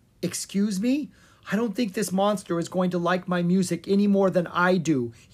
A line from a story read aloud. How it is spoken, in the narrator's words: he cried